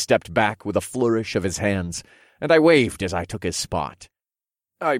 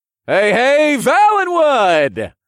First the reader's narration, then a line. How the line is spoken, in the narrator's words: I greeted the crowd in a loud, friendly voice